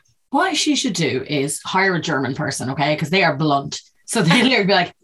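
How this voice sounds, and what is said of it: Usual voice. Nothing is said of it.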